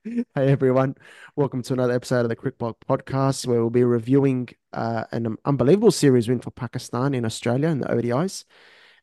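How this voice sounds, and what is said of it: Sick, under-the-weather voice. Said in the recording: “I'm a little bit under the weather today, as you might hear from my voice.”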